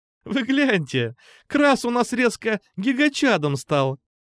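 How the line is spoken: Exclaiming through laughter. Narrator (Russian): Сквозь смех воскликнула розово-кудрая Алиса

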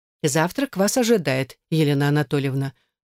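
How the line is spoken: Dry flat tone. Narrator (Russian): произнесла она сухим, ничего не выражающим тоном

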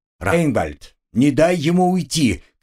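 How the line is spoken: Mentor shouting. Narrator (Russian): крикнул наставник

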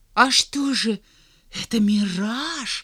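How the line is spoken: Frightened question. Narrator (Russian): испуганно спросил Алик

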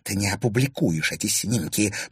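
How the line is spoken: Angry hiss. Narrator (Russian): прошипела Анфиса

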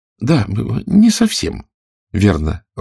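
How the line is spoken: Timid agreement. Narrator (Russian): робко согласилась Алиса

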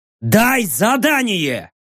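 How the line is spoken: Loud bark. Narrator (Russian): Я в голос рявкнул

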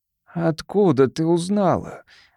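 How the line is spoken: Breathless exhale. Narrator (Russian): выдохнул он

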